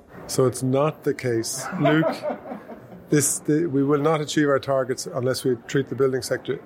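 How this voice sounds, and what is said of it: Mellifluous Irish accent. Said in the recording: “your mellifluous Irish accent”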